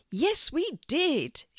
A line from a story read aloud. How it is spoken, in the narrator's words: shouted out some of the residents